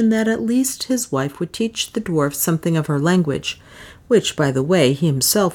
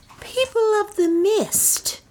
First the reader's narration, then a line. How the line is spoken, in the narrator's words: he cried